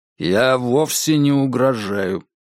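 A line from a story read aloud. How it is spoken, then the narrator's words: Flat, almost lifeless tone. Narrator (Russian): сказал Конгден ровным, почти безжизненным тоном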